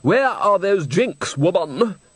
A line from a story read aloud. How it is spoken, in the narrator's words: out in the corridor, a young man's voice bellowed